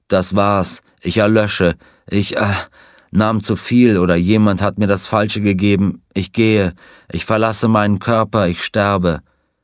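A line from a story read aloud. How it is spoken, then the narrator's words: Groaning. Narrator (German): Er stöhnte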